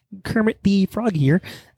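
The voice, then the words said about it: Imitates Kermit the Frog's voice. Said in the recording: “I might do a better job at Kermit than the guy who's voicing him now”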